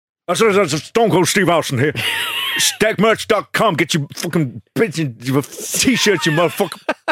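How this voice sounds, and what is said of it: Angry imitation of another person's voice. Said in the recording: “your Stone Cold Steve Austin ... You sound so angry.”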